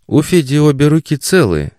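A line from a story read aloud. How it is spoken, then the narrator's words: Uncertain objection. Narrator (Russian): неуверенно возразила Заряна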